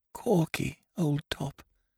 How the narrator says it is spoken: I whispered faintly

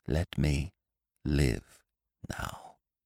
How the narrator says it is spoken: she whispered

